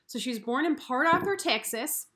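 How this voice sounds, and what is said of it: Failed Texan accent, sounds Midwestern. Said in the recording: “That's not a Texan accent. That was very Midwestern.”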